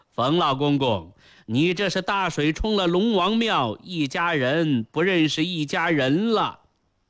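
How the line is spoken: Grinning mockery. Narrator (Chinese): 来人呲牙一笑，揶揄道

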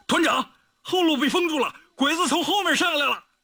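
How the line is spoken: Breathless, panting. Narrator (Chinese): 警卫排长王大荣气喘吁吁地跑到李云龙身边说

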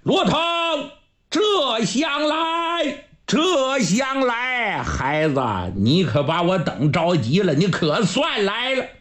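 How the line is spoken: Loud shout. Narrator (Chinese): 程咬金大声就喊

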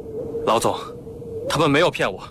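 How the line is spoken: Breathless. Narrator (Chinese): 廖飞喘了口气说

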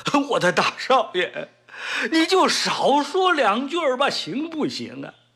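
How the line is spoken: Frightened, crying plea. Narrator (Chinese): 张永茂 吓得 哭着冲陈开创说

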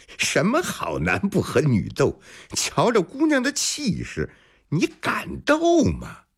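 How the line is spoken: Loud laughing. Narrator (Chinese): 小二抚掌大笑

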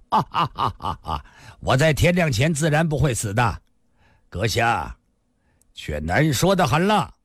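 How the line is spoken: Loud laugh. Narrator (Chinese): 李寻欢大笑一声

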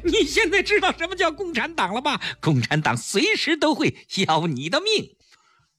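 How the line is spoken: Wild laughter. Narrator (Chinese): 顾青一阵狂笑

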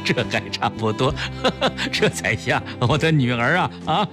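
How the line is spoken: Laughing through tears. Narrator (Chinese): 破涕为笑

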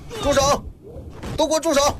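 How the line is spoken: Police shouting. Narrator (Chinese): 警察的喊声

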